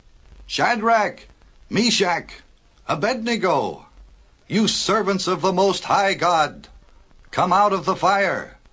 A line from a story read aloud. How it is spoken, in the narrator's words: the king went to the door of the furnace and shouted into the flames